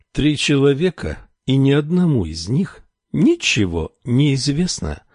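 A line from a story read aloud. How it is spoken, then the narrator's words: Sad. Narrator (Russian): снова заговорил он, грустно покачав головой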